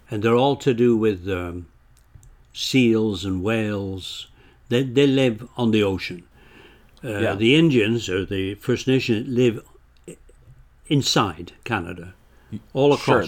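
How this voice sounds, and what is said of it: English accent. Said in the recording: “clearly from your accent, you came here from somewhere else as well ... I came from England”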